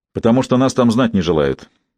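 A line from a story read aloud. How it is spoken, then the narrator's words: Curt, distracted. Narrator (Russian): отрывисто произнес, не отрываясь от своей писанины Симон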